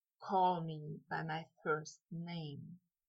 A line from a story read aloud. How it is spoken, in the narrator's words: Malfoy whispered